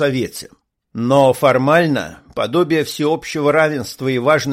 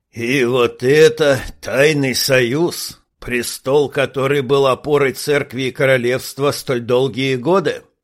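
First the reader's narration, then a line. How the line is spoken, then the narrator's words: Snorting old man. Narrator (Russian): фыркнул старик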